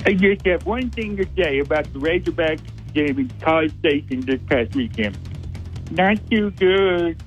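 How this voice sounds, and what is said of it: Imitates another person's voice. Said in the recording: “That was a double impression... It was an impression of an impression.”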